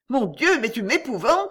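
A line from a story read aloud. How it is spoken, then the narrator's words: Frightened exclamation. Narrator (French): s'écria la baronne vraiment effrayée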